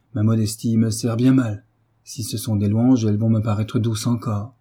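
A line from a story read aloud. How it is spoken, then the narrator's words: Cheerful. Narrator (French): reprit gaiement Frédéric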